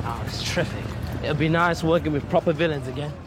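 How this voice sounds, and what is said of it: Cockney accent. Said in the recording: “doing a Cockney accent”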